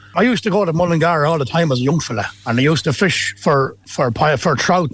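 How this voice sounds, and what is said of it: Put-on Irish Mullingar accent. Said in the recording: “mastering the Mullingar accent”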